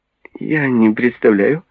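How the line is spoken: Laughing young woman. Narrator (Russian): засмеялась маленькая блондинка

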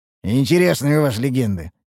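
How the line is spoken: Wry snort. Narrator (Russian): хмыкнул Мрадиш

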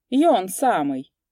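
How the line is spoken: Coachman's confident objection. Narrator (Russian): уверенно возразил ямщик

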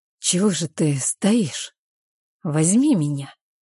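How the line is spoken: Hoarse, barely recognizable voice. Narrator (Russian): Мой голос хриплый, едва узнаваемый

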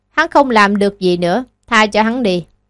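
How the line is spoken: Tired sigh. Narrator (Vietnamese): Lý Cẩn Thiên mệt mỏi, thở dài nói

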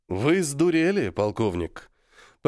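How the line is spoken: Almost calm reply, emperor. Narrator (Russian): Почти спокойно ответил император

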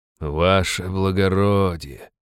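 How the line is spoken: Sighing again. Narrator (Russian): снова вздохнул Алип

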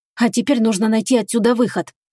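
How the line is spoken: Determined whisper. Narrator (Russian): решительно прошептал он

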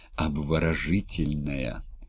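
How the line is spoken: Breathless exclamation. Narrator (Russian): опять выдохнул доктор

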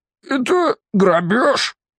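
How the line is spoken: Squeak. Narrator (Russian): пискнул Левиафанов

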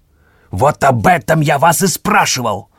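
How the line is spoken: Openly barked. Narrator (Russian): уже откровенно рявкнул Минин

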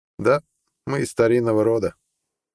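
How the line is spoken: Cold retort. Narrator (Russian): холодно парировал Харалд

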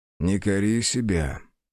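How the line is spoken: Soft, tender. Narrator (Russian): мягко произнес мужчина

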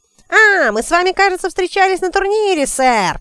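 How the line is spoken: Shrill yelling over noise. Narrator (Russian): вопил он своим пронзительным голосом, перекрывая уличный шум

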